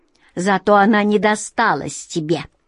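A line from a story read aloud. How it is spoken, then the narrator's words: Snide smirk. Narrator (Russian): ехидно усмехнулся Игни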